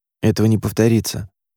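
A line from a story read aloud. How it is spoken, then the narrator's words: Mumbled. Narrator (Russian): пробормотал он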